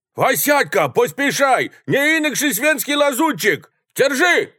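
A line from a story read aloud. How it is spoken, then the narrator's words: Shouting. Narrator (Russian): закричал второй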